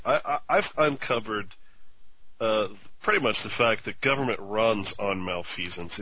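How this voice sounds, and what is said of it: Voice sounds sick, under the weather. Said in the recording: “I'm a little under the weather, so probably hear it in my voice.”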